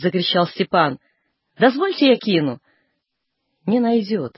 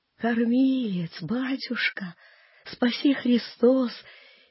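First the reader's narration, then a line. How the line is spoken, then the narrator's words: Toothless old man wheezing. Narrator (Russian): сипел старик пустым ртом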